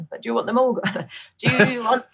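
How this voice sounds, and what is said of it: Put-on Northern English accent. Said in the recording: “I want to do Northern accent again”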